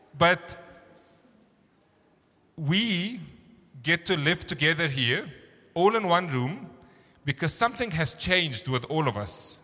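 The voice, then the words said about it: Thick Egyptian accent. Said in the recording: “my accent did change, and I still do have a thick accent ... oh, you're from Egypt”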